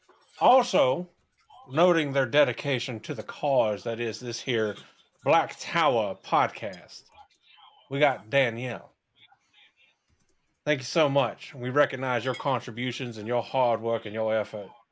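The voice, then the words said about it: Put-on Southern gentleman accent. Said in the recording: “I don't know where this accent's going to end up. I'm sure somewhere in like Europe. ... it went from, you know, the like kind of Texan, kind of general Southern to just Southern gentleman from South Georgia.”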